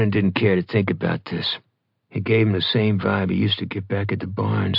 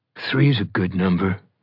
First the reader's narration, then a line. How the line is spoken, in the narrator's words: Ronan growled